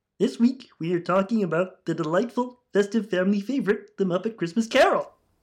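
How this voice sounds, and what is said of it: Kermit the Frog impression. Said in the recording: “able to do a Kermit impression ... I've got to get my Kermit on ... That's pretty good ... It's got a bit of Ira Glass in it”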